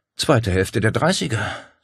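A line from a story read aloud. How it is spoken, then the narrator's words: Sigh. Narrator (German): seufzte sie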